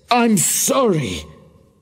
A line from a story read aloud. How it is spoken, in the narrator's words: cried Mr